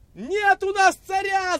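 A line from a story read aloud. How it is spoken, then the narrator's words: Crowd shouting. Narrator (Russian): закричали евреи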